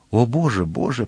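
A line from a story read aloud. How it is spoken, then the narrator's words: Whispered. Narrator (Ukrainian): прошепотіла Кетті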